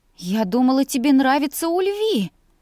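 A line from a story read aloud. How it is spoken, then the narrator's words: Breathless. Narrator (Russian): выдохнула я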